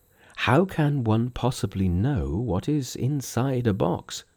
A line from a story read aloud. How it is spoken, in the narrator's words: murmured Tripitaka